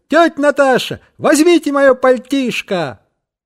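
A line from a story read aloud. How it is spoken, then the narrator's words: Shout. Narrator (Russian): крикнул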